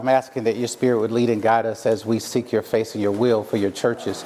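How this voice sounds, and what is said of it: Southern American twang. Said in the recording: “I am from Mississippi hence my little southern twang here”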